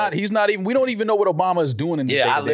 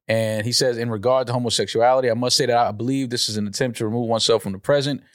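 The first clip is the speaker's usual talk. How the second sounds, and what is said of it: Flat, news-like reading. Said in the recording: “You can't just read it like it's the news.”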